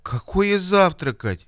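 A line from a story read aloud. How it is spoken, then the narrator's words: Offended exclamation. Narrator (Russian): Обиженно восклицает Николай Игнатьевич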